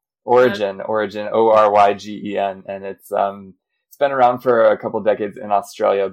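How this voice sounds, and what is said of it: American accent. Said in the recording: “I'm American, you can hear from my accent”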